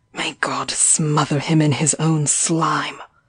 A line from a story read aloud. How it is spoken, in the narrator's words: I muttered thickly